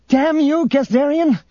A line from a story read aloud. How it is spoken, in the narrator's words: Tenennial shouted to the air